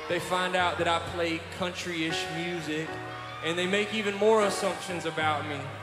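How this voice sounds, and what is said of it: Southern US accent. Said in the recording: “They hear me talk with a Southern accent”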